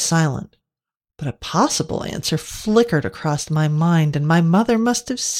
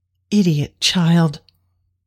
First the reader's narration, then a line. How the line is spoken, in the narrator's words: she said, her voice thick with a rage I'd never heard before